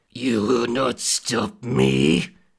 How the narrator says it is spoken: the demon growled

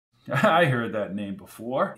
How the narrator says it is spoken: he said with a chuckle

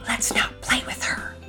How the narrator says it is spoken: one of them might whisper to the other

